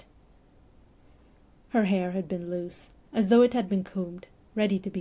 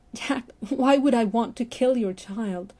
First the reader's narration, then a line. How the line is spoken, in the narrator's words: Stephen shouted, his voice finally breaking